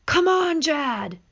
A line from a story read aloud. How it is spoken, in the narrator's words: yelled his father